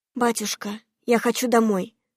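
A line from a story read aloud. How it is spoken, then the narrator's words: Tearful whisper. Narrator (Russian): прошептала, едва сдерживая наворачивающиеся слезы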